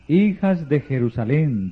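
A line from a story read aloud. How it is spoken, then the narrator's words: Plain. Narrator (Spanish): dijo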